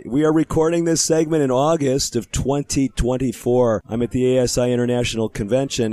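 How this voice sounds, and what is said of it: Weaker, strained voice. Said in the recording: “my voice may not be quite as strong as it usually is, but we are limping along”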